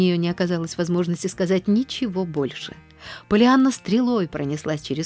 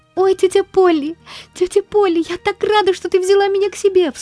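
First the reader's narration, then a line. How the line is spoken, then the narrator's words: Sobbing girl. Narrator (Russian): всхлипывала девочка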